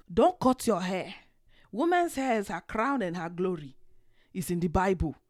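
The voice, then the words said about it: Slips into a put-on Nigerian accent. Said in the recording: “I'm finna be going in and out this accent this whole show, so just bear with me”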